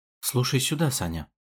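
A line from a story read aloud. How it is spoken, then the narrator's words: Quick whisper. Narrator (Russian): быстро зашептал Лазарь Иванович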